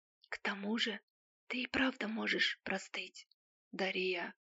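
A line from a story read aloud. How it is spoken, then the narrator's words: Whispering in ear. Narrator (Russian): Он шептал на ухо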